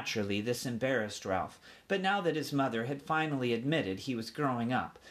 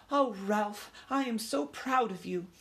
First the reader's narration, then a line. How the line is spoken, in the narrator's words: said his mother with a sigh of relief